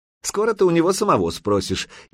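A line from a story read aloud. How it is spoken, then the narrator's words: Snide. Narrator (Russian): ехидно отозвался Лысина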